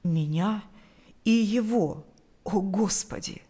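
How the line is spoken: Trembling voice. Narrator (Russian): произнес он дрожащим голосом

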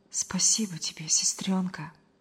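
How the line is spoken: Heartfelt whisper. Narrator (Russian): От души прошептал Павел

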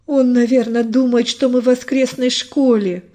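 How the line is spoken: Shout. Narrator (Russian): выкрикнул один из команды

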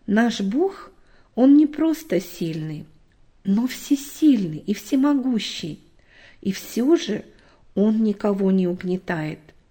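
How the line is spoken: Plain. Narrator (Russian): сказал папа

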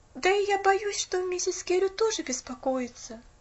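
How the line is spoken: Sigh. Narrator (Russian): вздохнула Поллианна

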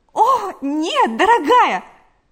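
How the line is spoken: Exclaimed. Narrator (Russian): воскликнула Галя

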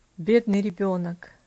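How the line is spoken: Sighing. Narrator (Russian): Вздохнул Иверсам

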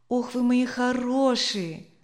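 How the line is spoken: Affectionate call. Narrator (Russian): ласково окликнул он собак

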